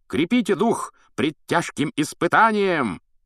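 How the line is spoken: High-pitched shout. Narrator (Russian): крикнул на высокой ноте рыцарь

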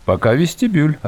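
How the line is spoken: Plain. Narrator (Russian): ответила Диана

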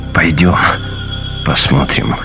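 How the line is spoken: Forced out. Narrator (Russian): выдавил из себя Шефер

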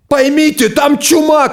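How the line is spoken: Shouted. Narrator (Russian): кричал врач

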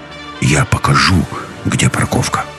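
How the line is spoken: Barely audible whisper. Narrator (Russian): еле слышно прошептал Нос

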